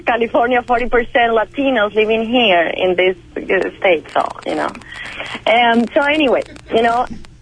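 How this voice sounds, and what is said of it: Non-native English accent. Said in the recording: “if she doesn't understand my accent ... I'm taking reduced accent classes”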